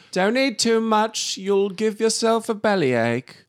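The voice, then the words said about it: Unidentifiable put-on accent. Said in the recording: “I don't know what that accent was.”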